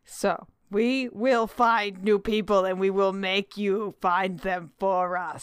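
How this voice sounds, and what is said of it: Playful mock-evil voice. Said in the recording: “evil voice filled with love ... That was a loving evil voice.”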